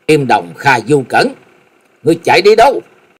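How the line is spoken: Loud shout. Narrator (Vietnamese): Hắc Y La Sát đệ nhị hét lớn

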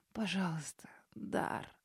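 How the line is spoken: Barely audible sobbing mumble. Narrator (Russian): беззвучно всхлипнув и едва слышно пробормотав

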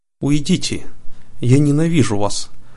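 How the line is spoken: Tearful cry. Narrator (Russian): сквозь слезы воскликнула принцесса

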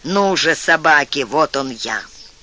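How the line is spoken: Fierce exultant growl. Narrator (Russian): Уильям возликовал, его страх прошел, и он злобно прорычал

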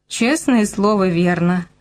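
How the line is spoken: Laughing. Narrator (Russian): рассмеялся я

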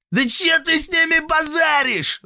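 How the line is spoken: Yelling. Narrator (Russian): завопил товарищ хмыря

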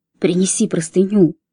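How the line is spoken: Low-voiced order. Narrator (Russian): вполголоса приказал он

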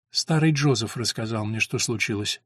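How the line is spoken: Mother's calm reply. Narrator (Russian): спокойно ответила мать

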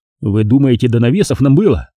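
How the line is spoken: Irritated. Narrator (Russian): раздраженно произнес я

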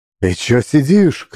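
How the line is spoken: Shouting. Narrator (Russian): крикнул Герка

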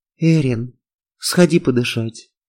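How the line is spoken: Calm. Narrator (Russian): спокойно сказала Хельга

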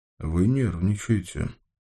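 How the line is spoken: Sighing. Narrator (Russian): Стерх вздохнул

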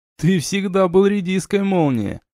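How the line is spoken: Laughing. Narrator (Russian): рассмеялся Рэнс

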